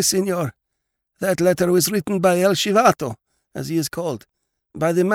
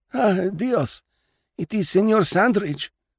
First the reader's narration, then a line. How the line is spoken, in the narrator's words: mumbled the old man